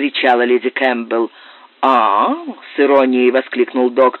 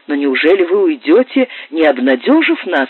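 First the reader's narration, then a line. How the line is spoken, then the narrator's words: Exclamation. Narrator (Russian): воскликнула леди Кэмпбелл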